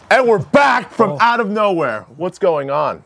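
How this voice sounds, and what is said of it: Yelling loudly. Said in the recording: “Why are you yelling? ... I don't know why I'm yelling.”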